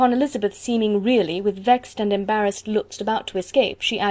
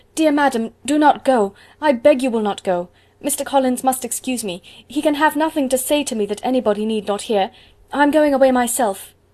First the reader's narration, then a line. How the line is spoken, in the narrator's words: Elizabeth called out